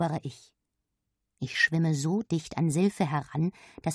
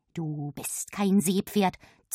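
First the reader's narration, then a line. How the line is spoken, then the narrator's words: Hissed aside. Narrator (German): zischt Silfe mir zu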